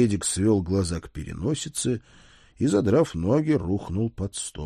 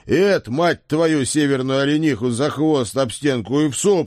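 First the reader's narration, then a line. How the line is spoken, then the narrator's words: Angry bark. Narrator (Russian): рявкнул я, потому что до меня дошло, куда он клонит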